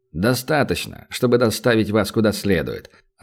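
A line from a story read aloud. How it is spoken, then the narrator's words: Indifferent tone. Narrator (Russian): равнодушным тоном отозвался полицейский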